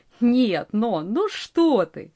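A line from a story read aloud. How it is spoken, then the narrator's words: Laughing. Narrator (Russian): рассмеялся ван Бинген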